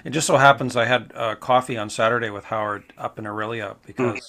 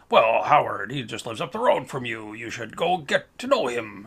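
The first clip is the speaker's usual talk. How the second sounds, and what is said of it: Imitates another person's voice. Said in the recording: “That was my Mike Manning impression ... that's a pretty good impression of Mike Manning. You just sound like James Mason.”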